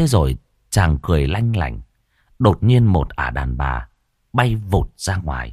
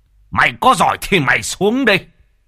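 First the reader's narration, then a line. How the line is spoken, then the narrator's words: Hissing. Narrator (Vietnamese): Mò Bá Cha rít lên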